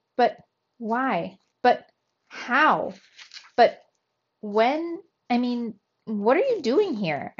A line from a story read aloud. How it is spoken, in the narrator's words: stammered